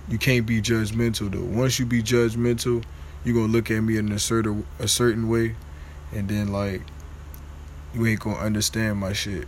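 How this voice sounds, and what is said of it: Stuttering speech. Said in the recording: “I don't know why the fuck I'm stuttering like this.”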